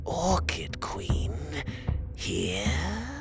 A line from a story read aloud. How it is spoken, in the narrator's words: he hissed